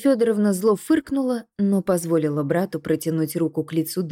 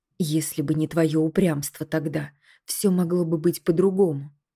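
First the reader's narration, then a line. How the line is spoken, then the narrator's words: Quiet woman, in Latin. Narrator (Russian): Тихо заговорила женщина, снова переходя на латынь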